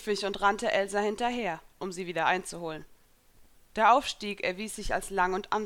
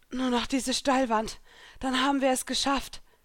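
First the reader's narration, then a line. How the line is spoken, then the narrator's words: Panting. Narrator (German): keuchte Elsa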